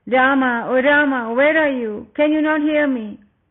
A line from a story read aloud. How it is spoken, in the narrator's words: Again and again Sita called out